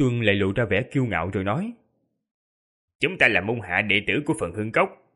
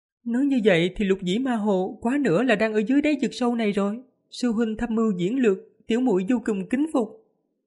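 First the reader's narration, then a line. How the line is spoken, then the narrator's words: Smiling. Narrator (Vietnamese): Yến Hồng mỉm cười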